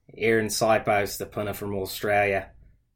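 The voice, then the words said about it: Strong put-on Australian accent. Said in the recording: “I feel like I got a pretty strong Australian accent, by the way. ... That's pretty solid.”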